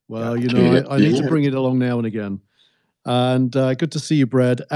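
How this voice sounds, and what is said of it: Classy English accent. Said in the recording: “that classy English accent”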